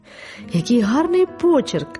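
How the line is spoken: Exclamation. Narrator (Ukrainian): вигукнула Роза

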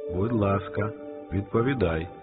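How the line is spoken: Plain. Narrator (Ukrainian): сказав голова

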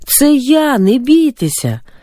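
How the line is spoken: Loud shout over wind. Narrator (Ukrainian): Ісус, перекрикуючи виття вітру, голосно сказав

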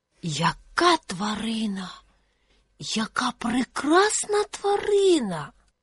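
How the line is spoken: Owl whispering. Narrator (Ukrainian): прошепотіла сова

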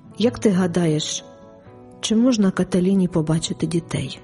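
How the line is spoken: Dejected question. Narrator (Ukrainian): запитав пригніченим голосом

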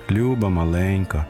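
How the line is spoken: Sad father. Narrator (Ukrainian): сумно промовив до неї татко

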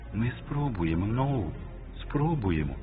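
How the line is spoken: Whisper. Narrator (Ukrainian): прошепотіла вона

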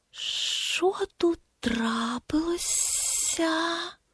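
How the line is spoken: Quiet hiss. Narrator (Ukrainian): Тихий голос прошипів

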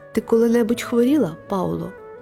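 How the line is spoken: Plain. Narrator (Ukrainian): запитала Каталіна

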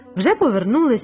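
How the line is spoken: Exclaimed. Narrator (Ukrainian): вигукнув Луїс

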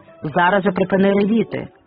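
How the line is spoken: Sharp command. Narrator (Ukrainian): різко наказав їй Август

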